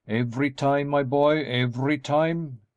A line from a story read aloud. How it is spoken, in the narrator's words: exclaimed the old gentleman